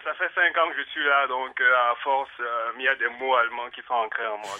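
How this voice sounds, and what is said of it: Mixed Cameroonian and German-French accent. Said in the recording (French): “c'est le vrai accent ... tout ce mélange d'accents ... accent ... Camerounais, germano-français.”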